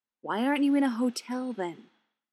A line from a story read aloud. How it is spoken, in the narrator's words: Clint sighs